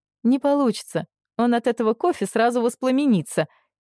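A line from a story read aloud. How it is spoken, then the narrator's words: Muffled giggle. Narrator (Russian): хихикнула в кружку Лиля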